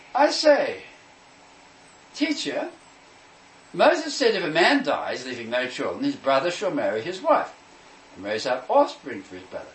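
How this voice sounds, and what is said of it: Put-on British accent. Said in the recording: “if you can put a British accent into this.”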